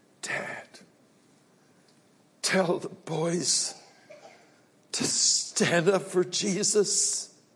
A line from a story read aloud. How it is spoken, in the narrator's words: weakly said to his father